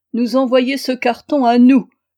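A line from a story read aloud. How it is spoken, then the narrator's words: Exclamation. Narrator (French): s'écria-t-il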